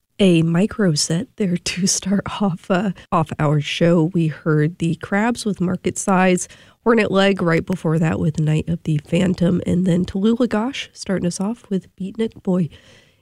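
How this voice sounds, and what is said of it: Sick, under-the-weather voice. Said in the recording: “If you can't tell by my voice, I'm a little bit under the weather. I'm wrapping up a cold.”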